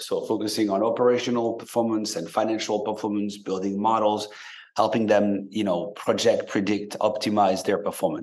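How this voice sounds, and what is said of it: Slight French accent. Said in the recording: “you may hear a bit of an accent because I grew up in France and moved to the US about 20 years back”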